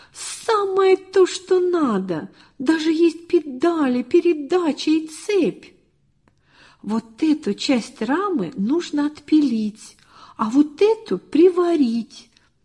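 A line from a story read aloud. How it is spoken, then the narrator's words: Near-unison exclamation. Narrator (Russian): чуть не разом воскликнули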